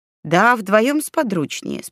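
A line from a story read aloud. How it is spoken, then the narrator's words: Calm explanation. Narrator (Russian): спокойно пояснил Оскар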